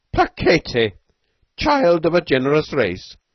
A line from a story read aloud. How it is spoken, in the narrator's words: he cried to Beetle